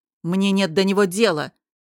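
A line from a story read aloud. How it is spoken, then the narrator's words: Sharp. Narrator (Russian): резко сказал Дестон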